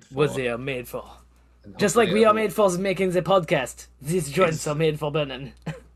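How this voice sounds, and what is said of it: Miscellaneous put-on accent. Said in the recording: “my miscellaneous accent”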